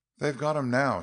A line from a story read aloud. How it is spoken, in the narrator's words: she exclaimed